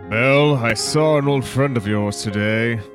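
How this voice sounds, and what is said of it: Gaston character voice. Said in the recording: “doing the Gaston voice”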